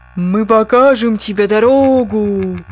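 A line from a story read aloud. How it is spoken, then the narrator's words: Booming, old volcano. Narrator (Russian): прогремел старый вулкан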